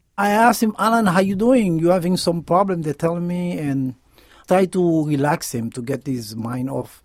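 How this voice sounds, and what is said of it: Haitian accent. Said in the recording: “He's originally from Haiti, hence the accent.”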